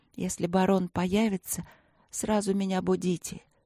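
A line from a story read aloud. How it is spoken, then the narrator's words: Insistent whisper. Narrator (Russian): упорно шептала я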